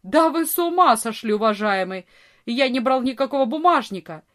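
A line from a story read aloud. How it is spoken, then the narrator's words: Furious shout. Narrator (Russian): Вор яростно закричал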